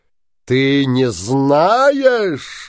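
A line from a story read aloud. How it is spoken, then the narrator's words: Shouting. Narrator (Russian): закричал синяя борода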